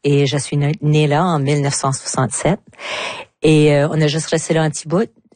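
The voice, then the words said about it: Southeast New Brunswick French accent. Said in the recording (French): “j'ai pas habité le sud-est du Nouveau-Brunswick. Comme que tout le monde peut le constater par mon accent.”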